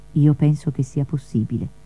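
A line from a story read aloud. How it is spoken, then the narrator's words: Gentle reply. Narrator (Italian): risponde dolcemente Anselmo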